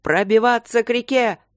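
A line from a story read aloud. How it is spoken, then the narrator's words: Yelled command. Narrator (Russian): заорал Трот своим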